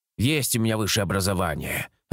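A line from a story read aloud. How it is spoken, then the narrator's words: Snapping. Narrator (Russian): огрызнулся Лейс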